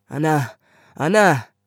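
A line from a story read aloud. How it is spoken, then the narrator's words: Father calling out loudly. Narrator (German): rief der Vater durch das Vorzimmer in die Küche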